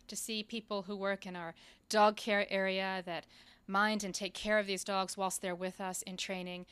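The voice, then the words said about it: Slight British London accent. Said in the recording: “I do detect a little bit of an accent there ... I'm from London.”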